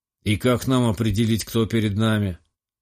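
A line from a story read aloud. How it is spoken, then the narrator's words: Gloomy clarifying question. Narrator (Russian): мрачно уточнил спец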